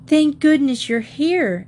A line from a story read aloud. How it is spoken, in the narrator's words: exclaimed the three girls in unison